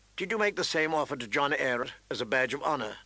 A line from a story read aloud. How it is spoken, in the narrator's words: Ned said dryly